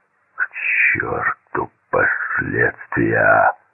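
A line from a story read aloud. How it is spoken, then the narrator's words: Growled. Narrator (Russian): прорычал то ли Мартин, то ли Дюк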